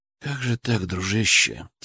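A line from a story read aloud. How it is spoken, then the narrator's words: Quiet voice. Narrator (Russian): тихо сказал я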